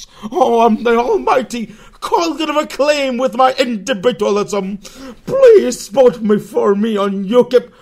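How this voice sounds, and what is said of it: Impression of Cognitive Acclaim. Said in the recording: “Yet another one of your cognitive acclaim impersonations”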